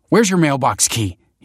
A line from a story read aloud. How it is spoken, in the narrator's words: he snapped